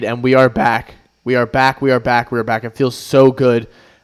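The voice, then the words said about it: Excited, energetic voice. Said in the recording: “I hope you can hear it in my voice ... I am so excited”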